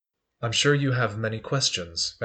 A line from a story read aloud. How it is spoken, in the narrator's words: Valior says quietly